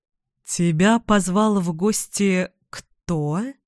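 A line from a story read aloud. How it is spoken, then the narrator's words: Insinuating voice. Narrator (Russian): Эдвина он вкрадчиво произнес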